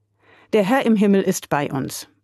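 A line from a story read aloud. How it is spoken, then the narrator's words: Firm voice. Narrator (German): antwortete er mit fester Stimme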